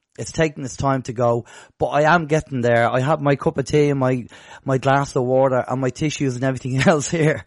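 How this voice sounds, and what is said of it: Rough-sounding voice. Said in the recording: “you can probably hear from my voice that I'm still, you know, sounding a bit rough”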